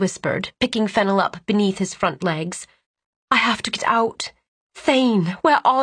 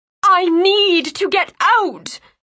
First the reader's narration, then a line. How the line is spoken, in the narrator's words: her mind screamed